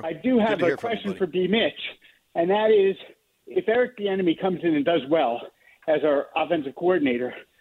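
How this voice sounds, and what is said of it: Out of breath while talking. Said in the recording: “I'm on the elliptical. So if I sound out of breath, that's why.”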